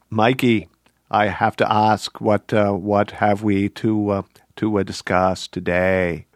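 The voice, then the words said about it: Kennedy impression. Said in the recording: “That's pretty good. That's not a bad Kennedy accent.”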